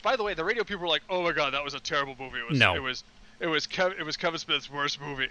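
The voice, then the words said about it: Imitates another person's voice. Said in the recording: “I'm doing the Blake Bortles voice by accident.”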